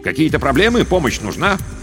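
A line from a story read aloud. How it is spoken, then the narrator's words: Shouted. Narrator (Russian): крикнул им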